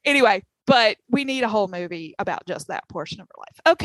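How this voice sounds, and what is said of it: Southern American accent. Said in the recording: “you had to listen to my southern accent. Get it all riled up.”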